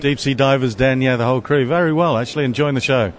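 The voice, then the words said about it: British accent, not Australian. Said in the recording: “doesn't have the traditional Australian accent ... Northern Hemisphere Australian from the UK, really.”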